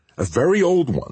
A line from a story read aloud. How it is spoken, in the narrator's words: said Vivi